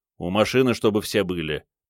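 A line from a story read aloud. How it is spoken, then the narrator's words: Grumbling mutter. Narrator (Russian): пробурчал начальник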